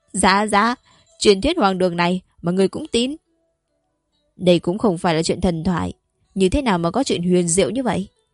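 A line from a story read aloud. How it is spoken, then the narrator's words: Cut off mid-sentence. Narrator (Vietnamese): Úy Chỉ Hoè còn chưa nói hết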